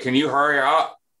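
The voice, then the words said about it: Muffled female voice impression. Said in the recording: “was that your impression that of a girl talking with a dick in her mouth? ... It wasn't bad. It wasn't bad at all.”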